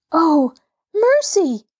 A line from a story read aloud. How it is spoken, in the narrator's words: gasped Mabel